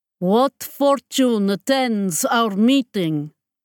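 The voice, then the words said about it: Heavy fictional Magdan accent. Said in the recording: “His tones, heavy with the Magdan accent”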